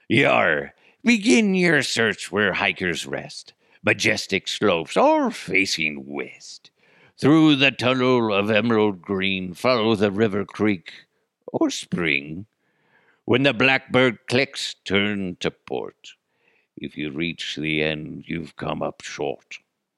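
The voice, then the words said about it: Pirate character voice. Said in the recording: “Paxton the pirate ... I kind of sound like, where's me lucky charms?”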